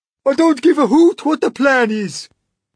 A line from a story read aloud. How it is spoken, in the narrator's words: cried the earthworm